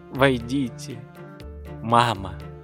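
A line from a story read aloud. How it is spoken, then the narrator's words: Tender voice. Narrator (Russian): произнес ласковым голосом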